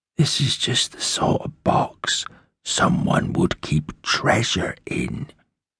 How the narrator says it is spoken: he whispered

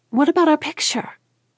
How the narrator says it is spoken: Cora exclaimed

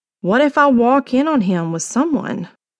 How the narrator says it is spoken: Jacy sighed

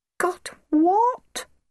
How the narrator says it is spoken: cried poor Mr

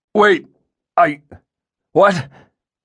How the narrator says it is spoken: Dracus stammered

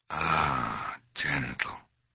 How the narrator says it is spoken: breathed the maestro

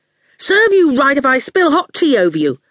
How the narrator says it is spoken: Howard said angrily

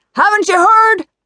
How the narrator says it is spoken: the man shouted

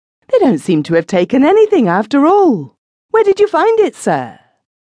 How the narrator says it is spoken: exclaimed

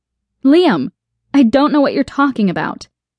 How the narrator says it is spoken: exclaim, feeling a rising tension

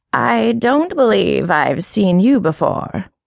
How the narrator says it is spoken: continued the voice, raspily, still reverberating with the sing-song cadence of scorn

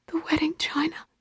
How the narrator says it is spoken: whispered Mom

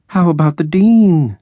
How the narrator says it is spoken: she moaned

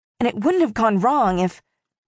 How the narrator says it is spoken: said Isabella through gritted teeth

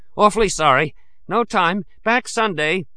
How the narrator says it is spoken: I panted over my shoulder

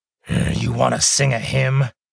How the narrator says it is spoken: Molin growled

